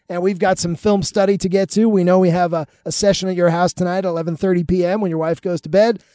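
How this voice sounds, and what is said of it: Hoarse, worn-out voice. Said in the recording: “my voice is shot.”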